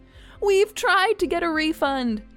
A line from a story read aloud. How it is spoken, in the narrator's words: Bob said happily